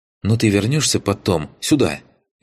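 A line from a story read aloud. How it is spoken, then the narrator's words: Frightened. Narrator (Russian): испуганно уточнила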